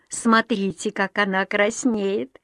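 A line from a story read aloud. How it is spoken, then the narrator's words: Giggling. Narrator (Russian): хихикнула Мэйми Тейлор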